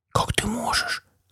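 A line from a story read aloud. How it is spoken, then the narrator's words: Tragic whisper. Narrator (Russian): трагически прошептала Адриана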